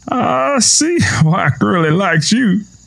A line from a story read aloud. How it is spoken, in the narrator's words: Tom chuckled